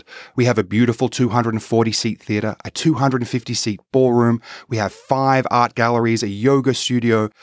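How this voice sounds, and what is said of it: Slight Australian accent. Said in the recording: “a little bit of an accent ... I am from Sydney, Australia, via London, England”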